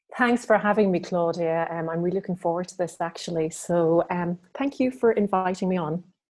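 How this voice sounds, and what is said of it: Irish accent. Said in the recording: “She has an adorable accent. She spends half of her time in Ireland... she is coming to us from Ireland, and you're going to love her accent”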